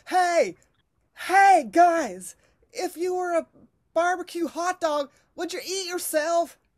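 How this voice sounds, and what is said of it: Imitates another person's voice. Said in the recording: “do an impression of Will Ferrell impersonating Harry Carey.”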